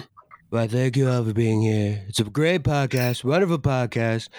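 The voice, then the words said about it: Imitates another person's voice. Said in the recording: “do an impression of none other than Donald Trump.”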